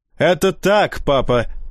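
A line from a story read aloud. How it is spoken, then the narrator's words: Shouting. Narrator (Russian): крикнул сокол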